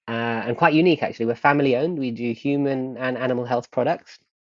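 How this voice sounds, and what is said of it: British accent. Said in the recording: “as you can hear from the accent, born in the UK, born in Hillingdon”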